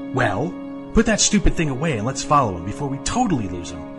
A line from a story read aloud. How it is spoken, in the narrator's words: Casey snapped